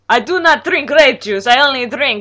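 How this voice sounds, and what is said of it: Exaggerated Dracula-style accent. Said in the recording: “that stupid accent? ... Emperor von Dracula”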